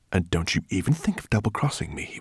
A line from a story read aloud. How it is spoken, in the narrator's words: whispered